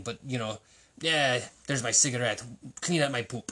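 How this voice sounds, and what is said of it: Vague put-on European accent. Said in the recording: “having some kind of foreign accent ... I don't even know what accent I'm doing. Am I doing some kind of European or something?”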